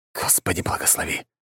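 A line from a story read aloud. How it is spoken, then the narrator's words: Whisper. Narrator (Russian): произнес он шепотом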